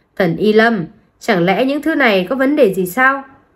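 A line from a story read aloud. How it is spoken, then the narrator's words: Smiling. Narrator (Vietnamese): Tàm Nhãn Họa chăm chú nhìn anh, sau đó mỉm cười nói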